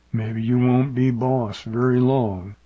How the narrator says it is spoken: Agnew grumbled

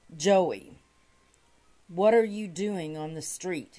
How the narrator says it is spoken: he asked

